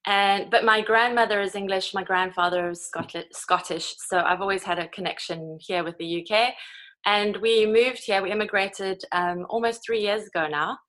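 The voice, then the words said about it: South African accent. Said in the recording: “the accent. Where are you? Because you're not actually quite where your accent's from ... I'm originally from South Africa, South African born”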